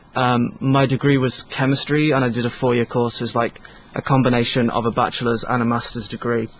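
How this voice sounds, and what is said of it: Mixed British regional accent. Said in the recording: “I'm from the UK, and any British people listening would recognize my accent's a little bit weird because I kind of lived in different pockets of the United Kingdom”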